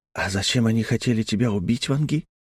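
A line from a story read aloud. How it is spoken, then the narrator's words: Whispered question. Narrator (Russian): шепотом спросил Ким Тхе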